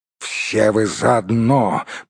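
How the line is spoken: Growled. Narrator (Russian): прорычал Торин

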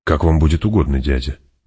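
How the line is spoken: Soft gentle speech. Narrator (Russian): мягко сказал Фейдраута

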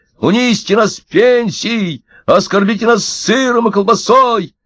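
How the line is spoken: Shouting crowd of pensioners. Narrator (Russian): Пенсионеры кричали

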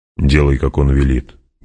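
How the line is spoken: Gruff mutter. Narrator (Russian): буркнул Стилгар

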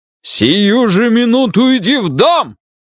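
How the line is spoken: Father yelling at full voice. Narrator (Russian): Заорал отец во весь голос

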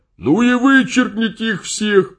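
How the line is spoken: Shout. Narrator (Russian): закричал Смерч

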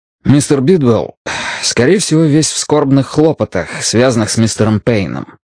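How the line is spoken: Plain. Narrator (Russian): сказал Мэтью

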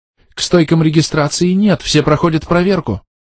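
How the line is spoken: Frightened. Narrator (Russian): испуганно сказала она

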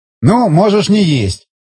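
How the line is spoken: Shouted. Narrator (Russian): крикнул Махеев

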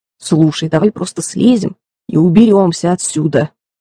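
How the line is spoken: Muttering. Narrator (Russian): пробурчал Джереми

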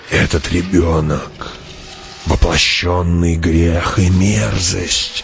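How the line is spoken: Old woman hissing. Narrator (Russian): прошипела старуха

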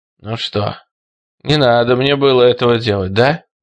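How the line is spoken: Hoarse wheeze. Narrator (Russian): прохрипел он

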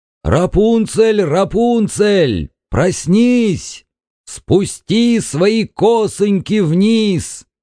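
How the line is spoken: Shout. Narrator (Russian): крикнул

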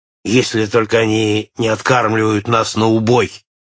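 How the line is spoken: Grumbling. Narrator (Russian): проворчал Нед

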